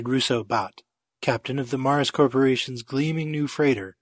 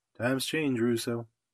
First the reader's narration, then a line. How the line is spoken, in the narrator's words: he answered quietly